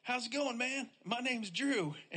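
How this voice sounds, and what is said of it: Imitates another person's accent. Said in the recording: “I love like doing your accent”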